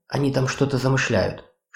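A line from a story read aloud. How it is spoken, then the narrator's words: Whisper. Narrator (Russian): шепнул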